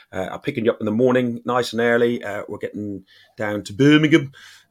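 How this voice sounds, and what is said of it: Put-on Brummie accent, done badly. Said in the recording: “sorry, all the Brummies I've just done your accent uh, badly”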